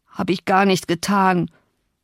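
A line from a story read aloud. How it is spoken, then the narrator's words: Boy groaning. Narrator (German): stöhnte der Junge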